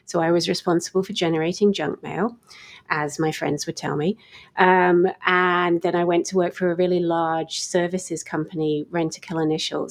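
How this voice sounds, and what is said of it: British accent, somewhat mutated. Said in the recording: “my somewhat mutated accent ... I originated on the other side of the Atlantic ... I grew up in the UK”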